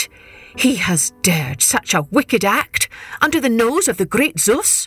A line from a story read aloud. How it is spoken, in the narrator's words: Demeter shrieked